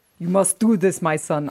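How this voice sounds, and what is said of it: Put-on Russian accent. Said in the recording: “I can't do the accent, obviously. ... That was pretty good. That was pretty decent.”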